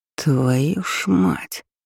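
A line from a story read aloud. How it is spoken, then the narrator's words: Astonished exhale. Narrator (Russian): Выдохнул он, изумленно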